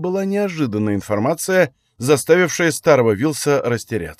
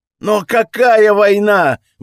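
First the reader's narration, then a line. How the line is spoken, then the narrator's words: Exclaimed. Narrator (Russian): воскликнул жрец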